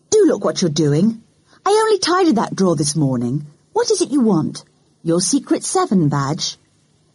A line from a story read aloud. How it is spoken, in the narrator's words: said Mummy crossly